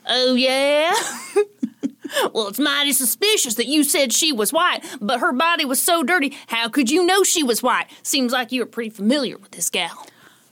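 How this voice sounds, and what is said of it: Put-on southern accent. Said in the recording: “let me do my southern accent.”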